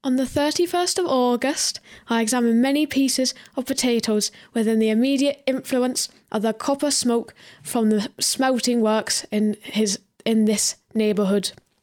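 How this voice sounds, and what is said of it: Put-on Welsh accent reading aloud. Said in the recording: “Good accent.”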